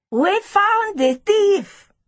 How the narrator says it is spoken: Tapiwa shouted

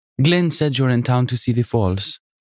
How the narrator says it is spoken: the energetic woman said in a faint Jamaican accent

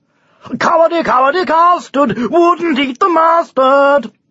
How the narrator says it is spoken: he would shout, with a self-satisfied grin on his once gloomy face

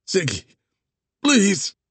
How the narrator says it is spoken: Andy begged

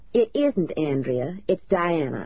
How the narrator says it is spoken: I said coldly

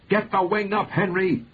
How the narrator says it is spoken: Patrick yelled

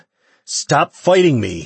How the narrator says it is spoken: he shouted at her

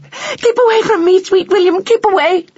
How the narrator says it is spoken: she squeaked

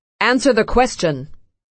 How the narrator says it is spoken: Loki shouts

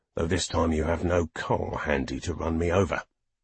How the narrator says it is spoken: Halliday growled at him

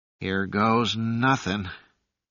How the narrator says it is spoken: he sighed

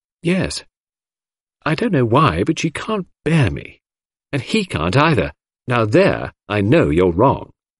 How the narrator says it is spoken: I said warmly

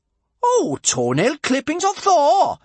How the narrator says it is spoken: exclaimed Bertha, in disappointment

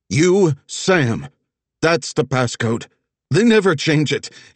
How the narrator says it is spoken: Elijah exclaimed

